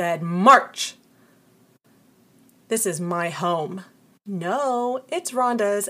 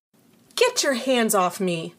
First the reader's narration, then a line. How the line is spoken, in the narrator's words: I snapped